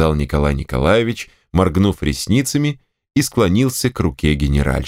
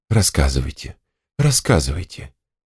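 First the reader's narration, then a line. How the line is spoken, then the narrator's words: Languid whisper. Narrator (Russian): томно прошептала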